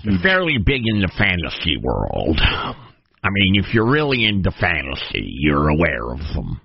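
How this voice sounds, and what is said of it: Put-on geeky voice with speech impediment. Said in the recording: “What is that accent you're adopting for this? ... some sort of a geeky, for some reason, speech impediment.”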